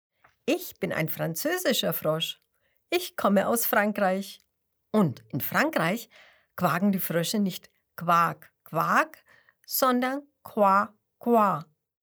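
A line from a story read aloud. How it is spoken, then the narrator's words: Cheerful laughing explanation. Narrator (German): lacht Grenouille und erklärt fröhlich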